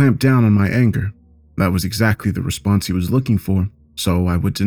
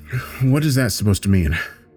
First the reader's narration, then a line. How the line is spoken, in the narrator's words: muttered